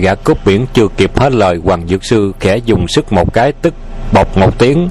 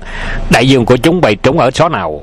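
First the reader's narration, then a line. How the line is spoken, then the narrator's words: Loud shout. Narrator (Vietnamese): Hoàng Dược Sư quát lớn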